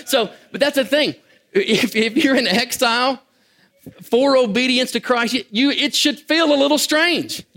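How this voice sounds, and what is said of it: Kentucky accent. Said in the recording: “with that accent ... that's got Kentucky written all over it”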